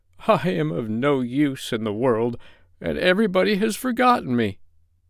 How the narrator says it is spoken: he moaned

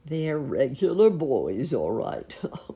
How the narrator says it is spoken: chuckled Uncle Wiggily as he crouched under a bush

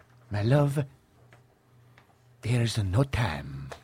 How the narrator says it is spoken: quietly

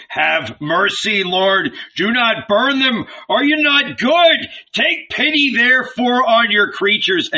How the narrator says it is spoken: Abraham had shouted

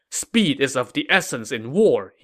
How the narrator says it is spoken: said angrily

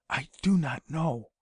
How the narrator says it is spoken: said in a whisper scarcely audible

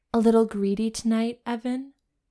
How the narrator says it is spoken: purred

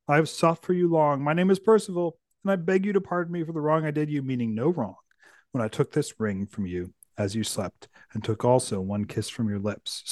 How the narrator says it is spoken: said gently

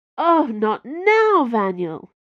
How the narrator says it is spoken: Bianca moaned

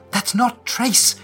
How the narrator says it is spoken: cries out, desperately backing away

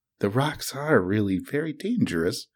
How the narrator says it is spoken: she said to herself

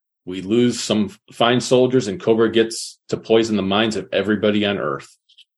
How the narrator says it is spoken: Senator Duke says gravely

